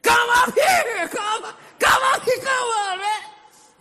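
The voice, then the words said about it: Loud excited shouting. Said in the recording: “spoke like a trumpet blast. That's loud ... I mean, with excitement.”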